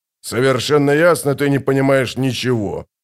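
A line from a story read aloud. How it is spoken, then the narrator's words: Grumbling. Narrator (Russian): пробурчал барон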